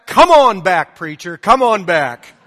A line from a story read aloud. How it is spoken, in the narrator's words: the lady shouted from the back